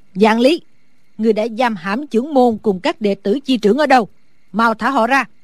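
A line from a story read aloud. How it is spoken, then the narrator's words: Loud shout. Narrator (Vietnamese): Sử bà bà lớn tiếng hét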